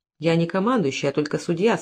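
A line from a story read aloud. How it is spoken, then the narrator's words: Calm. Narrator (Russian): спокойно ответил министр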